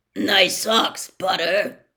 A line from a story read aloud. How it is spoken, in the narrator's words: growled as he passed